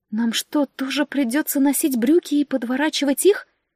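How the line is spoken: Horrified squeak. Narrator (Russian): в ужасе пискнула девушка

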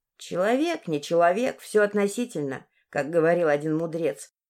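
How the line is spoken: Old woman grumbling. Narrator (Russian): проворчала бабка

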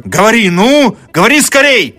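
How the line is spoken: Student shouting. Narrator (Russian): закричал студент

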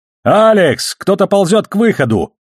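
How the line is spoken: Shouting at full voice. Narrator (Russian): Во всю силу легких прокричал Холден

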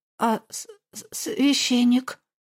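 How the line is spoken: Stammering again. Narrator (Russian): Я снова стала заикаться

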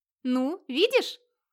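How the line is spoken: Delighted exclamation. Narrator (Russian): восторженно воскликнула, словно все это было делом ее рук

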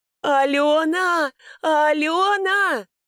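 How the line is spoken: Hysterical shouting. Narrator (Russian): истерично закричала Фаина Семеновна

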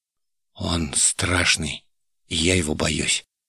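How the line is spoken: Girl's quiet confession. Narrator (Russian): тихо призналась девушка

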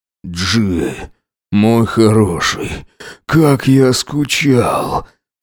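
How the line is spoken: Hoarse wheeze. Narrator (Russian): прохрипел Макс

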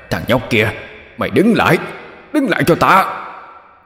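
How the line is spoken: Furious roar. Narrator (Vietnamese): Đại quỷ gào lên phẫn nộ

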